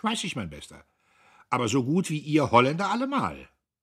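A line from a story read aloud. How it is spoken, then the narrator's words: Mocking retort. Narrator (German): Diederich versetzte höhnisch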